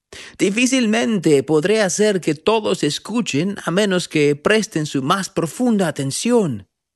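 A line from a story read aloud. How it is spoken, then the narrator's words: Prophet shouting over wind. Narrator (Spanish): gritó el profeta por encima del ruido del viento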